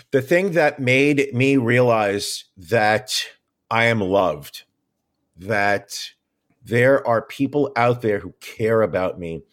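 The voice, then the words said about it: Emotional, choked-up voice. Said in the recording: “I'm getting choked up.”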